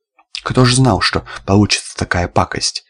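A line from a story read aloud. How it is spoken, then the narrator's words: Plain. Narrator (Russian): сказал Федот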